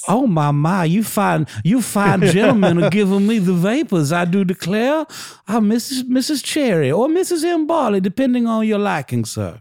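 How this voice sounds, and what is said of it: Thick flirtatious Southern belle accent. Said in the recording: “she could put on a Southern accent ... adopting a thick Southern accent ... a rich, flirtatious Southern lady in town from Alabama”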